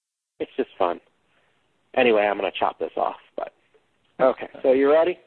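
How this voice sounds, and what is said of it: Usual voice. Nothing is said of it.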